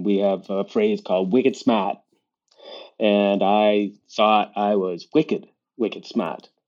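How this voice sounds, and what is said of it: Boston accent. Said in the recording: “That's a Boston accent”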